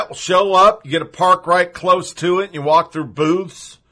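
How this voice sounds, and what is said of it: Southern twang creeping into speech. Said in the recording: “I'm getting a twang. Sorry. It happens whenever I talk about Smithfield Jamboree.”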